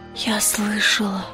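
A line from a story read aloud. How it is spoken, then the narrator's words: Whisper. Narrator (Russian): прошептала она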